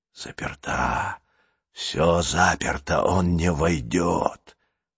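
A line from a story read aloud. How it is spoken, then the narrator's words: Distant whisper. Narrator (Russian): доносился до Джулии шепот садовника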